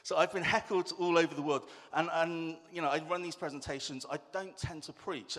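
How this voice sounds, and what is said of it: Bristolian English accent. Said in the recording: “speaking with too much of a Bristolian accent ... I don't think I've got that strong a Bristolian accent, but apparently it's really difficult to understand”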